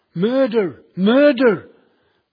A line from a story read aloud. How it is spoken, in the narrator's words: they shouted, cried